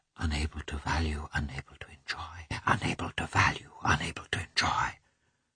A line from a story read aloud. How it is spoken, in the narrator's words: repeated in a strange, mad whisper